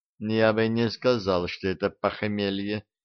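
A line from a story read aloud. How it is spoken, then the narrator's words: Mumbling. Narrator (Russian): пробормотал Дарамир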